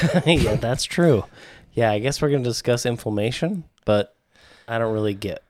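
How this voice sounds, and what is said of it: Usual voice. Nothing is said of it.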